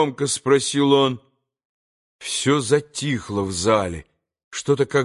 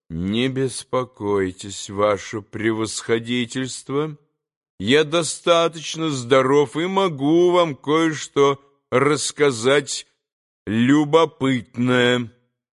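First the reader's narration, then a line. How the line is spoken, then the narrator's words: Sudden calm respectful reply. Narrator (Russian): ответил вдруг совсем спокойно и почтительно Иван Федорович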